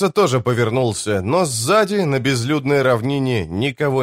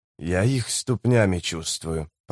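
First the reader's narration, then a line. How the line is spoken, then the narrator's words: Mumble. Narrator (Russian): пробормотал человек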